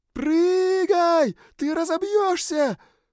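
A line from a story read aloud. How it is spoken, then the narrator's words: Desperate scream. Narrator (Russian): Отчаянно завопила Сьюн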